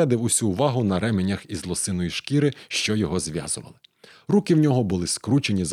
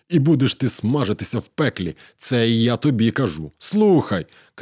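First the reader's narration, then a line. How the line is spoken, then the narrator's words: Shouted after pause. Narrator (Ukrainian): крикнув, трохи помовчавши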